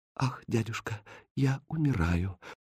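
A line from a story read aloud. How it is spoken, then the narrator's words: Whisper. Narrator (Russian): прошептала Катринка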